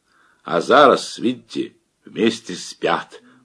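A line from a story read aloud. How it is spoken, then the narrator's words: Now loud. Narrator (Russian): уже громко заговорил Яков Лукич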